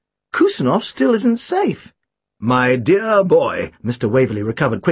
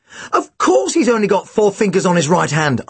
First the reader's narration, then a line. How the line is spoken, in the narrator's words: I exclaimed